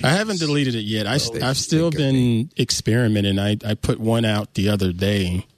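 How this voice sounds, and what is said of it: Southern US accent. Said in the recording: “you heard my accent, so it started serving up a bunch of people from the South”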